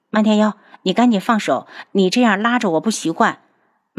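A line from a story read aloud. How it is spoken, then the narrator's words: Sighing. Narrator (Chinese): 楚清瑶叹了口气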